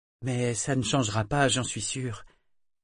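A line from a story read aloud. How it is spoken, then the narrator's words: Sugary tone. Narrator (French): répondit Althea d'un ton doucereux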